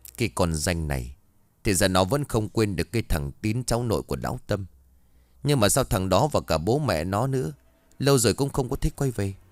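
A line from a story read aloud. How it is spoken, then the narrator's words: Scornful muttering. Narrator (Vietnamese): Thím bĩu môi lẩm bẩm trong miệng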